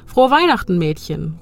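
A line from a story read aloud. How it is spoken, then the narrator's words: Called out. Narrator (German): ruft er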